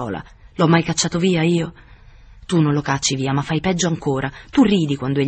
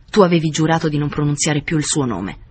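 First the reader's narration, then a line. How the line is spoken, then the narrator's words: Harsh voice. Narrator (Italian): disse con voce aspra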